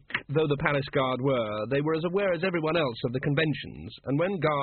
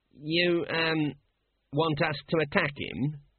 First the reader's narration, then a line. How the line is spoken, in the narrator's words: said the guard miserably